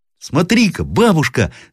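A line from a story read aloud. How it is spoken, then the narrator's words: Boy shouting. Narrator (Russian): закричал мальчик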